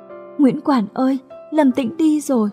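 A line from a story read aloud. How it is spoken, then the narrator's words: Sobbing. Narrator (Vietnamese): nức nở nói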